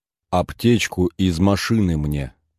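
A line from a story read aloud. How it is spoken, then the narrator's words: Even-voiced repetition. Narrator (Russian): повторил Долгов ровным голосом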